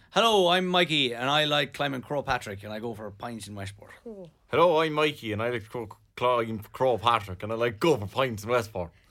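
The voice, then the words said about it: Put-on Mayo Irish accent. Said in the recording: “Do your best Mayo accent ... Jeez, that's good.”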